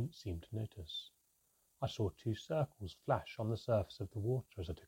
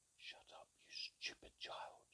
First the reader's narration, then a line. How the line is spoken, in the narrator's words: hissed Manka